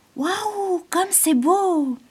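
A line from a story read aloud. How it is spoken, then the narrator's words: Exclaimed. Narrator (French): s'écria Azur le papillon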